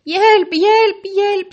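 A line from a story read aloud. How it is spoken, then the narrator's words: Screamed. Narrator (Norwegian): skrek han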